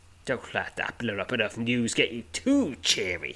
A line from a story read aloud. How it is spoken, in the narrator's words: he snarls